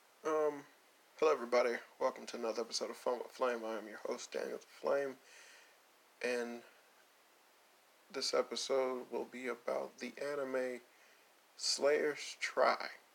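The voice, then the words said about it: Flat monotone delivery. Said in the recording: “If you're wondering why I'm speaking in such a monotone way”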